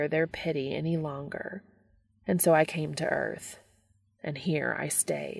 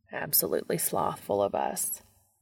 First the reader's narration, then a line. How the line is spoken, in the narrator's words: Castiel mutters